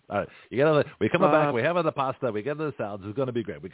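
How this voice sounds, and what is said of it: Put-on Italian accent. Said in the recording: “Why couldn't we have Italian accent?”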